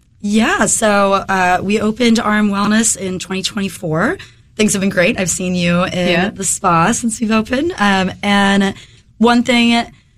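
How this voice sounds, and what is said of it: Slightly hoarse voice. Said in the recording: “I'm getting over a head cold right now. ... if my voice is a little hoarse”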